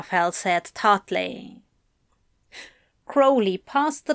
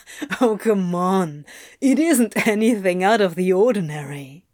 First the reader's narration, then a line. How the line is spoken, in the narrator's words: Crowley said with a chuckle